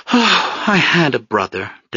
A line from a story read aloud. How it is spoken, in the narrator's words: Desdemona replied wistfully